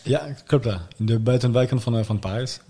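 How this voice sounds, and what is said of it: Dutch spoken with French accent. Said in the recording (Dutch): “heb jij een zeker ... Frans accent.”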